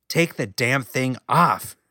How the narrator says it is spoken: she growled

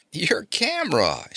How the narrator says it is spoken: she told him, laughing

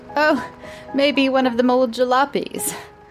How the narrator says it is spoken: she giggled

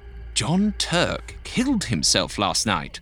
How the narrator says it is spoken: the man said eagerly

